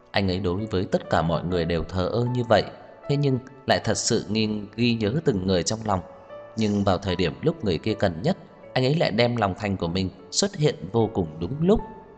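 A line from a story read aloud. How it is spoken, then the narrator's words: Smiling. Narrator (Vietnamese): Dai Dai mỉm cười nói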